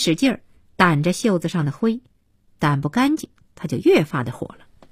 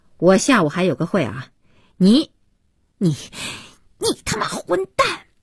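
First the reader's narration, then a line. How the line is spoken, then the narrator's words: Furious. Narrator (Chinese): 不知如何发泄怒火，边说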